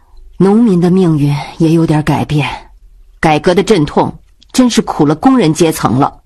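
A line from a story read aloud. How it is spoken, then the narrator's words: Sighing. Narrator (Chinese): 冬梅也叹道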